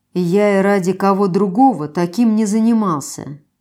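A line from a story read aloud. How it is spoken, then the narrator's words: Lazy reply. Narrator (Russian): Лениво ответил он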